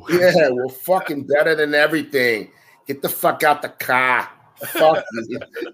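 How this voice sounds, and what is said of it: Put-on Boston accent. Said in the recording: “you got to have that Boston accent.”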